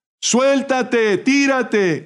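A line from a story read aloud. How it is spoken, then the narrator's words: Several voices shouting. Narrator (Spanish): gritaban otras voces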